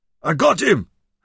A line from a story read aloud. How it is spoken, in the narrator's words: howled